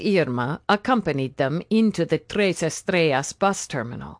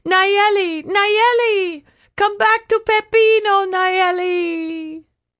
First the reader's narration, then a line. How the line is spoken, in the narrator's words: yelling